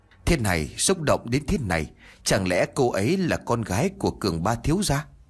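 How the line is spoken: Muttering. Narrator (Vietnamese): Trương Lập lẩm bẩm nói

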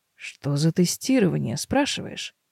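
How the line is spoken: Muttered, straining to focus. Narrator (Russian): Бормочу я, силе сосредоточиться

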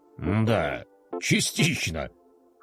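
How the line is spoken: General's amused grunt. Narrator (Russian): хмыкнул генерал

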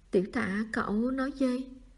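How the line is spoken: Trembling question. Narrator (Vietnamese): run run hỏi lại

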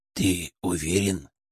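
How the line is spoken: Whispering in ear. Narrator (Russian): зашептал мне на ухо Ферк

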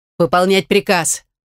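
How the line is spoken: Angry barked order. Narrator (Russian): рявкнула я, все больше злясь и на девушку, и на ситуацию в целом

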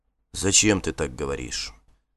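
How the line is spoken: Quiet. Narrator (Russian): тихо сказал он

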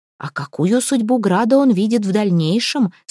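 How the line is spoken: Plain. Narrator (Russian): спросила Карина

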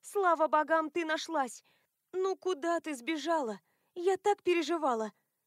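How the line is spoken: Creature's joyful squealing. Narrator (Russian): Тварь радостно подпрыгивала, повизгивала

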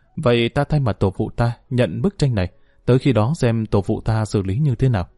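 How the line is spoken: Hesitant sigh. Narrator (Vietnamese): Âu Dương Nguyễn Linh do dự một hồi, cuối cùng cũng thở dài nói

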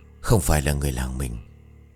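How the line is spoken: Stunned, trembling old man. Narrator (Vietnamese): Bằng một giọng hết sức bàng hoàng, ông run rẩy bảo

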